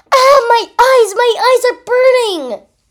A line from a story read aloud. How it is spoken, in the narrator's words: screamed through the pain